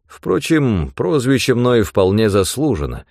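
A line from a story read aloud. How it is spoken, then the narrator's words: Even, level voice. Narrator (Russian): сказал он ровным голосом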